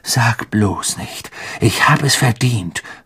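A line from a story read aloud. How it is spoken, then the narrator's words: Snapped angrily. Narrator (German): fauchte Ron sie an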